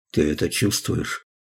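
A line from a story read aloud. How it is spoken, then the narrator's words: Whisper in the ear. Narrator (Russian): Том шепнул ему в ухо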